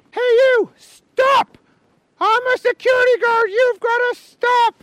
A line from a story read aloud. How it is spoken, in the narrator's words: he heard a security guard yell